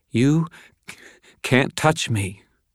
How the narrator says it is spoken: Justine stammered

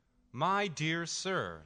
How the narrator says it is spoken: the elderly woman exclaims

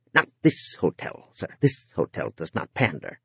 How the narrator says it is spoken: The clerk said in a clipped, disapproving voice

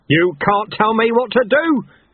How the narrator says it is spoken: Chaos roared

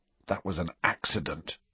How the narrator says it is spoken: he whispered miserably

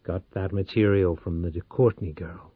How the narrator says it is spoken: Powell murmured

